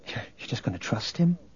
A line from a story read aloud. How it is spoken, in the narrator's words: Leia whispered to Luke